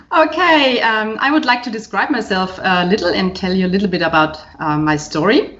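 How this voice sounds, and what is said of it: German accent. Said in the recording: “she has a beautiful accent ... as you can hear, um, I was born um, in uh, Germany”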